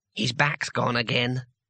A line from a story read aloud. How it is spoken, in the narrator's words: whispered Twoflower